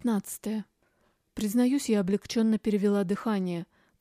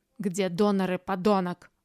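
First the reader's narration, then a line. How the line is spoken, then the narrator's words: Hiss. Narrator (Russian): прошипел Курчавый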